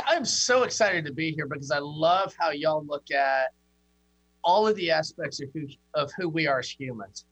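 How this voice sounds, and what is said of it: Southern American drawl. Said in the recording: “the Southern accent ... Southern drawl”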